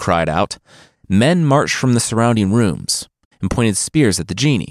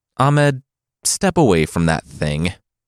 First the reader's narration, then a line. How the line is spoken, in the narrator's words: said